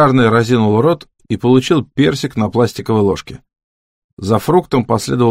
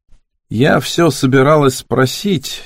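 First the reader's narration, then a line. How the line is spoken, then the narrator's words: Hesitant, uncertain. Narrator (Russian): неуверенно начала Рене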